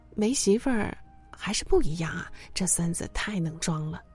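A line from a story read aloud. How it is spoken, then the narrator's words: Sighing remark. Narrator (Chinese): 朋友后来感叹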